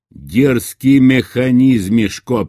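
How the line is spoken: Booming. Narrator (Russian): прогремел путь

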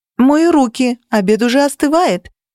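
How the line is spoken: Shout. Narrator (Russian): крикнула я

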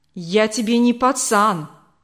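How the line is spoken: Snapping back. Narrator (Russian): огрызнулся

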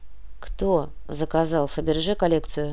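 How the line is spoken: Quiet question. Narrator (Russian): тихо спросил Кортес

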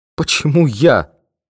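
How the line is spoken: Sobbing. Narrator (Russian): всхлипнул торгонавт

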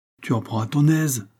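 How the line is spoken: Grumbling. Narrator (French): grognait-il

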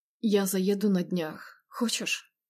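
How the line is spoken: Slightly hoarse whisper. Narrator (Russian): его чуть хриплый шепот

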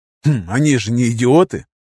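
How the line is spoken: With a snort. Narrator (Russian): хмыкнул я

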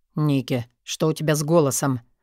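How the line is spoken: Sleepy but alarmed. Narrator (Russian): Тут же сонно, но встревоженно отозвался Мор, перебив меня

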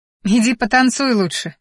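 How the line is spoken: Laughing. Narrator (Russian): хохотнула я

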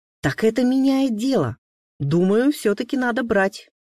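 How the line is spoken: Decisive exclamation. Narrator (Russian): решительно воскликнула Рита

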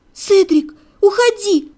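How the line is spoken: Frightened pleading. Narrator (Russian): взмолилась, поняв, что вот-вот может произойти что-то страшное

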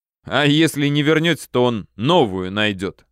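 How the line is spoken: Chuckling. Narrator (Russian): хохотнул друг

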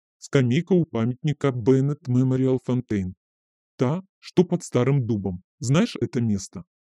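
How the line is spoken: Said through gritted teeth. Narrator (Russian): я процедила

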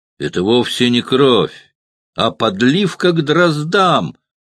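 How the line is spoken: Exclaimed. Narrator (Russian): Друс воскликнул

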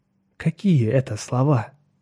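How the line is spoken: Calm, unbothered reply. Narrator (Russian): ничуть не огорченный услышанным, Лиман ответил

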